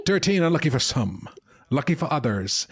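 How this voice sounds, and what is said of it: Put-on vaguely Scottish accent. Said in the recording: “I don't know what that accent was ... Bit Scottish.”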